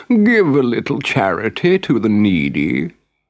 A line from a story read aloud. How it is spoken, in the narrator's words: whined the fox